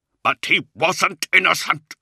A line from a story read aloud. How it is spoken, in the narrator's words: Luther cried bitterly